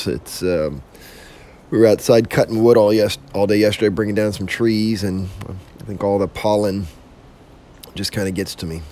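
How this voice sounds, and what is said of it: Husky, hoarse voice. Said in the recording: “excuse my voice this morning if I sound a little more husky or hoarse”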